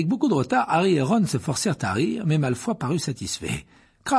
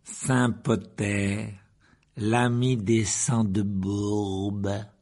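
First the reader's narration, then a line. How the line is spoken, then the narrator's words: Slow. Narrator (French): dit lentement Malfoy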